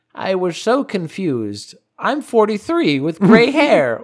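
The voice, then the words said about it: Old lady voice. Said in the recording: “Why did you go into old lady voice? ... old 40, lady ... voice.”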